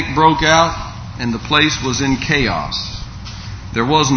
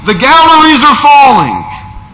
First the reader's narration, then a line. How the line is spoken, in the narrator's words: someone else began yelling